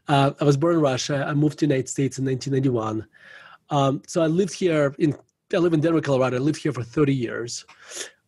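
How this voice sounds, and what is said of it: Russian accent. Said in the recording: “as you can tell by my accent, ... I was born in Russia.”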